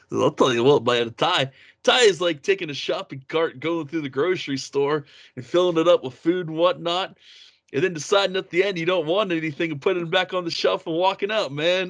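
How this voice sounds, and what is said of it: Imitates another person's voice. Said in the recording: “I tried doing my Gruden voice.”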